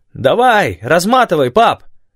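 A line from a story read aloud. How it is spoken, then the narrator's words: Shout while moving. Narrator (Russian): крикнул Манда на ходу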